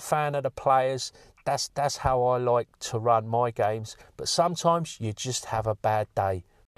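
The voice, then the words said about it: British London-style accent. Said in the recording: “my accent. ... they're from the other side of the pond. ... someone who sounds a bit like Dick Van Dyke or Ray Winston”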